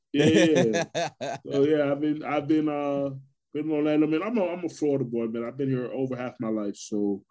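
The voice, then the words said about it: New York Brooklyn accent. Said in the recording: “I'm originally from Brooklyn, New York ... People say they still hear my accent. ... Oh, I can hear it clear as day, man.”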